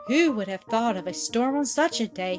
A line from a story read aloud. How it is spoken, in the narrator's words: he exclaimed